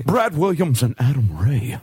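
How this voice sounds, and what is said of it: Adam West impression. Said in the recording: “That's not bad. ... That's a pretty good Adam West.”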